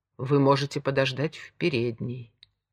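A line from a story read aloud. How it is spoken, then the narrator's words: Calm repetition. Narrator (Russian): повторил он спокойным голосом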